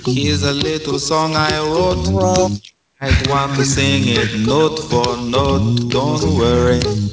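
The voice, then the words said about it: Sung in a fake Jamaican patois accent. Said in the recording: “It's a horrible patois accent.”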